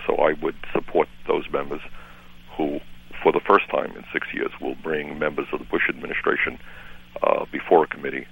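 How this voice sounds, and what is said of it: New York accent. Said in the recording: “It's not a Vermont accent, is it? It's a New York accent by way of Vermont.”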